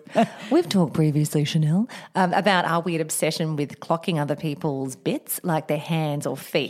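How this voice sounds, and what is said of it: Put-on therapist voice. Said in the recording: “I'm doing my therapy voice.”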